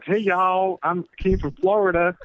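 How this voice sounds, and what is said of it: Southern American accent. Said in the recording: “I actually had a Southern accent.”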